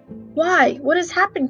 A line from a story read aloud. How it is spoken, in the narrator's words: cried the dwarves